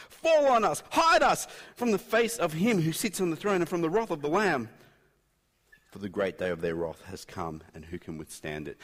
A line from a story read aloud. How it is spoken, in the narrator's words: They called out